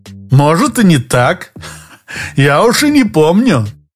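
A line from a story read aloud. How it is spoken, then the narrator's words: Laughing. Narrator (Russian): Лопатин рассмеялся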